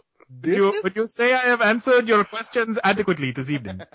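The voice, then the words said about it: Bad put-on Indian accent. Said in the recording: “That was the worst Indian accent ever. ... that was the best Indian quote ever.”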